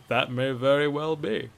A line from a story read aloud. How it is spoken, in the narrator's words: chuckled Bracknell